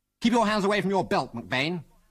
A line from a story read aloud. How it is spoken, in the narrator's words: snapped Algy